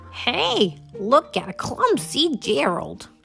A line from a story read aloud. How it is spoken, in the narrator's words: the animals all sneered